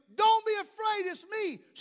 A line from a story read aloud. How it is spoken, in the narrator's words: Jesus yells at them